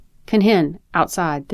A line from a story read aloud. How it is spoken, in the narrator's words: the teacher yelps